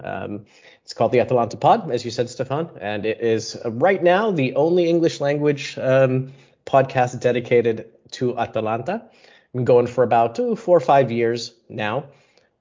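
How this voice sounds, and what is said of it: American English accent. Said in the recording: “from my accent, listeners, you can hear that I'm probably not grown up in Bergamo, Italy ... I am American”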